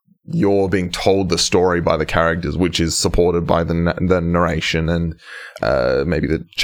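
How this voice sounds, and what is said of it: Usual voice. Nothing is said of it.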